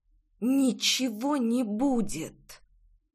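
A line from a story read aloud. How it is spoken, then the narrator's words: Hissed through teeth. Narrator (Russian): прошипела сквозь зубы Рейна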